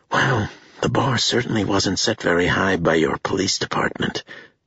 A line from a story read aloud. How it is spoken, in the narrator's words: sighed